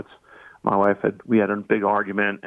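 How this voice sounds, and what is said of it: Choked-up, emotional voice. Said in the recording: “I get choked up even talking about it now.”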